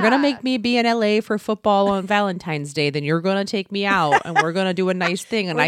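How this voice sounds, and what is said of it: Usual voice. Nothing is said of it.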